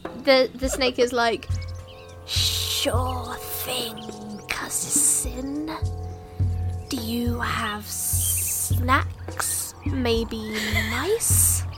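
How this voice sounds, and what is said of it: Hissing snake voice. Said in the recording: “do the snake voice ... just do the hissing while speaking”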